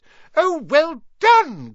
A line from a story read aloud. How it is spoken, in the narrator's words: cried Professor Flitwick